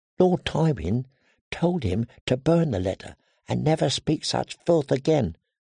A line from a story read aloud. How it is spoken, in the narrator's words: the girl whispered